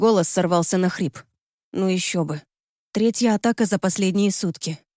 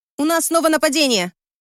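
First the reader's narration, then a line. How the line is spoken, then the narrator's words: Shouting woman. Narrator (Russian): крикнула я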